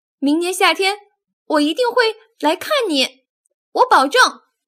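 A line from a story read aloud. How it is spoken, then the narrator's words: Loud shout. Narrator (Chinese): 尤利大声喊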